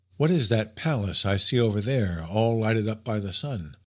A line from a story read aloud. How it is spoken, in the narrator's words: I asked Serapion